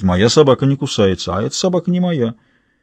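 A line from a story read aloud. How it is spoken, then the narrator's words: Farmer's calm voice. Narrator (Russian): Фермер спокойно произносит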